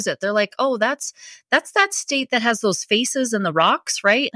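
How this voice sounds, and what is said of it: North Dakota accent. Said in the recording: “where's that accent from? ... I am from North Dakota”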